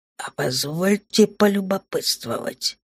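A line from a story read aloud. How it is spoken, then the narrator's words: Spoken through gritted teeth. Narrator (Russian): процедил владыка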